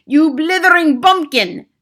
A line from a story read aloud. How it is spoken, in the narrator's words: screeched the Grand High Witch